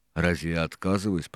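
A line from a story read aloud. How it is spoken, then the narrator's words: Grumbled. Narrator (Russian): проворчал второй боцман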